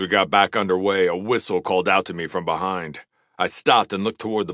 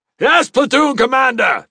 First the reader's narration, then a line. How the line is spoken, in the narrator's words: shouted in unison